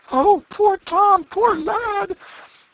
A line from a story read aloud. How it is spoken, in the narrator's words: with woe and dismay in their faces, exclaiming